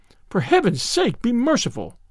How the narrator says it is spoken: cried the young man

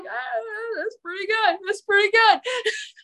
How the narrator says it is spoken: laughed and he's like

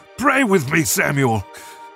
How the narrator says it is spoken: Saul shouted

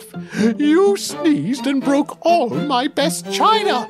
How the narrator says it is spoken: she screamed up

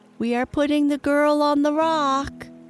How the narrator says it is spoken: Smee called out

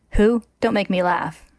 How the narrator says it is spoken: Risa says

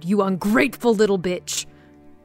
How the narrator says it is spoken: he bellowed

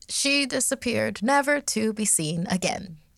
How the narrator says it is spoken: she said in a bright tone, almost too cheery

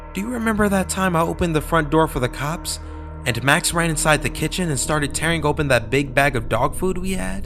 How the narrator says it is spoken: my mom blurted out

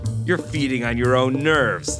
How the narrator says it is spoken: I laughed

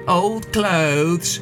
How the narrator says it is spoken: One sneered

